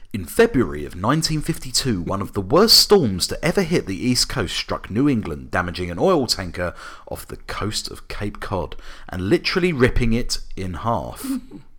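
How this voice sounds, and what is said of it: Synopsis narrator voice. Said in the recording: “I'll do my IMDb voice”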